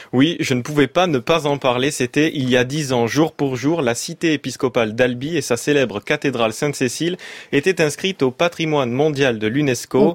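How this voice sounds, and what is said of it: Regional French accent from Albi. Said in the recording (French): “On comprend donc votre accent”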